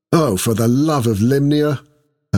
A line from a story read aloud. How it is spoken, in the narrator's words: Esmeralda groaned